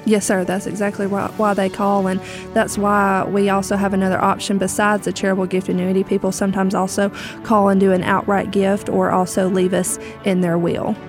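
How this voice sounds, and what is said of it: Southern American accent. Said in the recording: “talk in a southern accent like you do”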